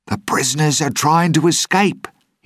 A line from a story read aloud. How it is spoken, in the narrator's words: he screamed